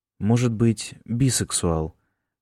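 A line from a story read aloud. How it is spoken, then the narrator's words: Said calmly. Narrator (Russian): спокойно сказал Джеймс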